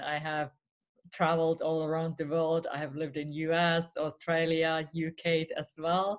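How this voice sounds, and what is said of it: Finnish accent in English. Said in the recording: “If you're wondering where this accent is from, I'm originally from Finland”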